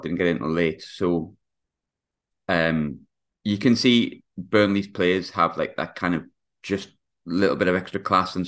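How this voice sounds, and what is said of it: Hoarse, worn-out voice. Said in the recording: “my voice is a bit shot”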